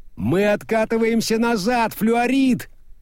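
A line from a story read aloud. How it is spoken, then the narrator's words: Shout. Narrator (Russian): прокричал Мокриц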